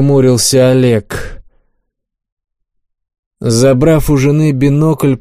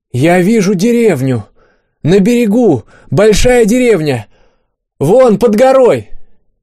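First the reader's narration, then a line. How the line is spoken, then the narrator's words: Excited shouting. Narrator (Russian): Аня прокричала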